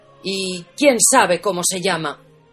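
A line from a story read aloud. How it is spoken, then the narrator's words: Growling. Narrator (Spanish): gruñó el encargado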